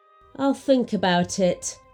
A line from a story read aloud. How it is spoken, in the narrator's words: sighed Babushka